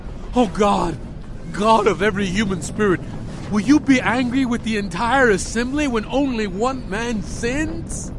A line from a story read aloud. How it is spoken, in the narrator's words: Moses and Aaron fell face down and cried out